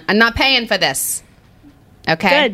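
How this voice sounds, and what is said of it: Put-on Long Island accent. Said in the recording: “I went straight Long Island ... your Long Island accent is improving”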